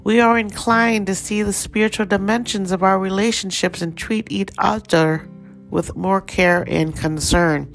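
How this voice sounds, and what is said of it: Slight Thai accent. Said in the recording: “Just heard my little Thai accent come out there. That happens sometimes in the morning when I'm not fully warmed up.”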